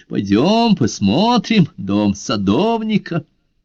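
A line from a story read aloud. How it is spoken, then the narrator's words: Laughing. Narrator (Russian): Карла засмеялся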